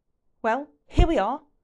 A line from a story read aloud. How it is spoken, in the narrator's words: Ron snaps